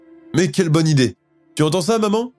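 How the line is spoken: Exclaiming. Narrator (French): s'exclame Monsieur Parker

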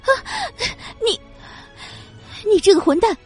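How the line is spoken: Sudden shocked scream. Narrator (Chinese): 呆愣了两秒后，顿时尖叫了一声

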